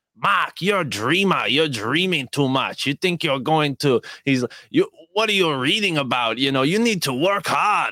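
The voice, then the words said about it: Imitates another person's voice. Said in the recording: “I do an impression of him”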